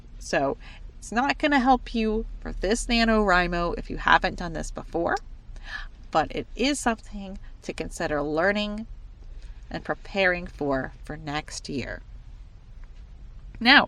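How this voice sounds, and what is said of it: Voice affected by a cold. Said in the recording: “As you probably can hear, I have a little bit of a cold, so I'm kind of talked out ... my voice is going away”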